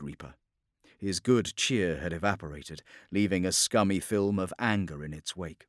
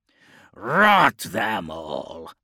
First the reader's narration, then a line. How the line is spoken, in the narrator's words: snarled